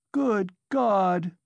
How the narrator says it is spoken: she cried with flashing eyes

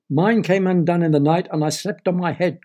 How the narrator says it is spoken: cried a third

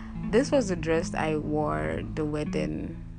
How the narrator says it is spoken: Bailey answered

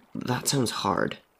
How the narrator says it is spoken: Henry muttered

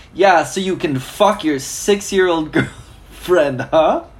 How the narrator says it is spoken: I shouted sarcastically

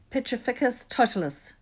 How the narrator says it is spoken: she cried

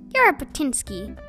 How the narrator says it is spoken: said Bongo wearily

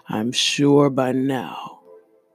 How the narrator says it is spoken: growled

